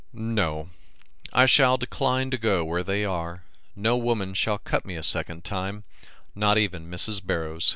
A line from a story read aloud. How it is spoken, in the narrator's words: said Willis firmly